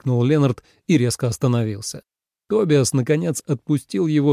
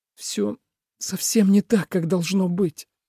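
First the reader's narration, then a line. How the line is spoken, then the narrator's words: Shaky voice. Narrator (Russian): дрогнувшим голосом произнес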